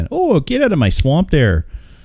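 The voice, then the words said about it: Put-on Canadian accent. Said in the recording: “Shrek with a Canadian accent”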